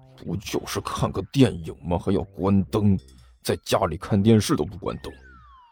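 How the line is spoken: Grudging low mutter. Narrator (Chinese): 心不甘情不愿地坐好，低声嘀咕道

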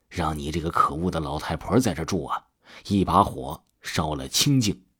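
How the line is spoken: Through gritted teeth. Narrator (Chinese): 曾大伟咬了咬牙，切齿地说

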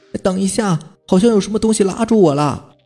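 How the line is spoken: Loud shout. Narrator (Chinese): 后面那个人大喊了一声

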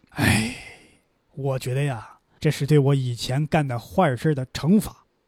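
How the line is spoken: Long sigh. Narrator (Chinese): 阿吉布长叹一声

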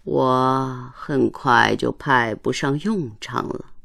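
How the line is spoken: Sighing. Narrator (Chinese): 唉，船夫叹息道

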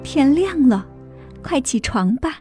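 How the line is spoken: Gentle. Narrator (Chinese): 妈妈 温柔地说

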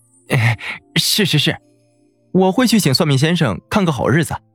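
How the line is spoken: Excited grinning. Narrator (Chinese): 宋来…两眼放光的咧嘴笑开了

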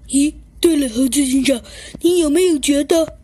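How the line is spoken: Panting, out of breath. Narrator (Chinese): 小鸡墩墩呢，喘着粗气说道

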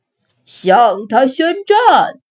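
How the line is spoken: Loud roar. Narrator (Chinese): 士兵鱼大吼

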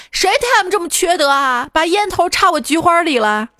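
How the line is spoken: Yelling. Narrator (Chinese): 冲着办公室大叫

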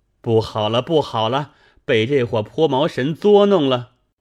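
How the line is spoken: Shouting in alarm. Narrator (Chinese): 沈一大叫道

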